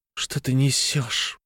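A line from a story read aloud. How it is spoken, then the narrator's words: Hissing. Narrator (Russian): прошипела она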